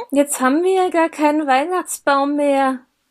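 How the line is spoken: Disappointed whimper. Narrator (German): wimmerte Kevin enttäuscht

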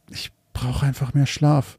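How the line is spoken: Murmured. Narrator (German): murmelte

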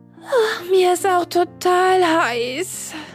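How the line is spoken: Moaning. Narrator (German): stöhnte sie

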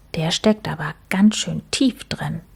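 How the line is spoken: Soft. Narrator (German): sagte Max leise zu Mucks

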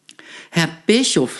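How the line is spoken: Stuttering. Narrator (German): sagte sie stotternd

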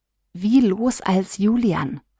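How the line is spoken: Whisper into ear. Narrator (German): flüsterte Lia Johannes ins Ohr

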